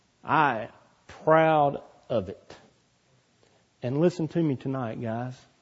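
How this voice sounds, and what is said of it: Southern drawl. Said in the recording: “Southern drawl”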